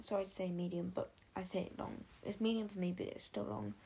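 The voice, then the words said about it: British accent. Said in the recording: “you can kind of tell that I have a British accent”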